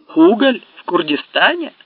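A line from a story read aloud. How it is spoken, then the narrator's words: Laughing exclamation. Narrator (Russian): воскликнул Меткалф со смешком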